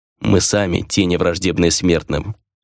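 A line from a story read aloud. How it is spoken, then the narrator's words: Plain. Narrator (Russian): ответил некромант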